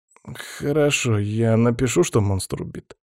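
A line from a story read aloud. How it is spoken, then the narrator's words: Confused mutter. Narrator (Russian): растерянно пробормотал профессор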